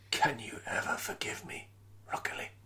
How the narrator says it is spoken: Boromir whispered, with ragged breaths

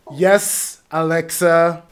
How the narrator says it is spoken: he said sternly

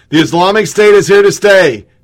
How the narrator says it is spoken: They shout in unison

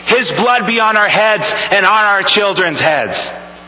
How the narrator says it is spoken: the Jews the people there shouting

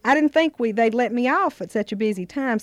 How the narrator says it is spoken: said Aunt C

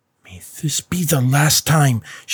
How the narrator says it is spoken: spat through gritted teeth

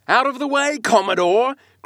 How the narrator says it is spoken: cried one to a great dromedary that of a sudden rose bodily to the surface and for an instant threatened to swamp us

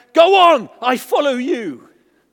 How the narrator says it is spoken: he cried out

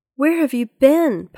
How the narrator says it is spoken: Polly asked anxiously

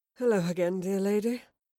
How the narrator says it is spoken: panted Kit with a weary smile

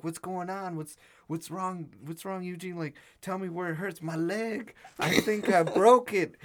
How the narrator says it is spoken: He starts screaming

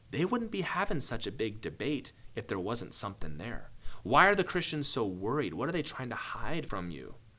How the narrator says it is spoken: begins to whisper

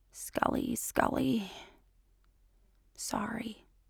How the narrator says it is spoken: she mutters, and there's a fault line slipping into her voice

